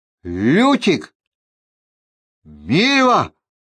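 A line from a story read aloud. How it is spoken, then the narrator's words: Shout. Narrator (Russian): крикнул Геральт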